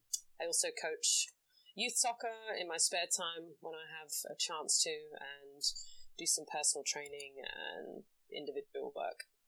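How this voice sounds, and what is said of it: English accent. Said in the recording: “if you can tell from her accent, she's not from around these parts ... I'm from England, born and bred in London. Grew up with Irish parents”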